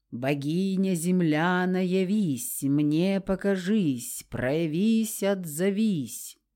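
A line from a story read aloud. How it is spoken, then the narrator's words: Sepulchral commanding voice. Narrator (Russian): велела сестрица и загробным голосом произнесла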